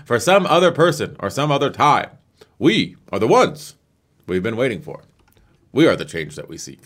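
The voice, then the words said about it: Barack Obama impression with pauses. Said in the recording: “do an Obama impression ... I just do the pauses ... That's not bad.”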